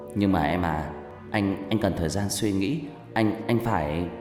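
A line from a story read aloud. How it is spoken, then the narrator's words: Slippery evasive voice. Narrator (Vietnamese): Tôi cố gắng nói bằng giọng lươn lẹo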